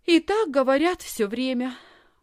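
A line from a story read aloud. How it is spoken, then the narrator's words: Sighing. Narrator (Russian): вздохнула Лисхин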